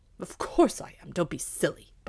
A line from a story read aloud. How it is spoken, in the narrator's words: barked the dog, joyfully at the thought of another good dinner